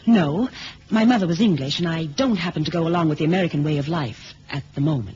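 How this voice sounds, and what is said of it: American accent. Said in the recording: “He means the accent ... you don't sound like the usual courier ... Miss Delroy is an American citizen.”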